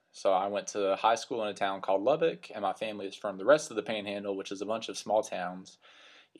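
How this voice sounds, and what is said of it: West Texas accent. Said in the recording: “As you can probably tell from my accent, I grew up in the great state of Texas, in the West Texas area that we call the Panhandle.”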